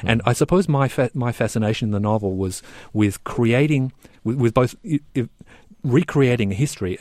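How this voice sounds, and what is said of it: Australian accent. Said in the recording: “As people will hear from your accent, you are from Australia.”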